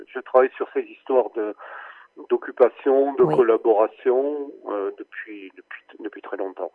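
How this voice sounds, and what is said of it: Toulouse French accent. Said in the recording (French): “cet accent toulousain qui me fait chaud au cœur”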